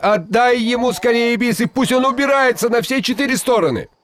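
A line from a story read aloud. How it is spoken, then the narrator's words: Frightened shout. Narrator (Russian): Шигайбай испугался, что Алдар Косе еще задержится в его ауле, и крикнул жене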